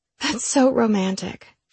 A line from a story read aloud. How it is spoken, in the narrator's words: she said, sighing